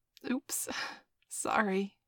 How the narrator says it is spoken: giggled

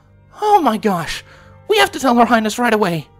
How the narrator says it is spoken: Raven exclaimed

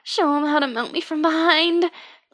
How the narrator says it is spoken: I blurted

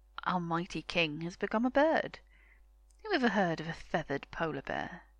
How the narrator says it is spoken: They began to laugh, and one said

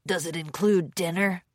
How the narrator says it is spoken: Lickspittle grunted

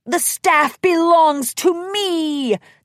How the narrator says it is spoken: the hairy beast bellowed

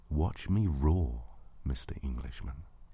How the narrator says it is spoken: you said so softly

